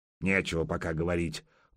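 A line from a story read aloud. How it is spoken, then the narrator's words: Grumbled. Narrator (Russian): буркнул Добрыня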